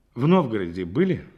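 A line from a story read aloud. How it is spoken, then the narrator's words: Plain. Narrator (Russian): спросил Рябинин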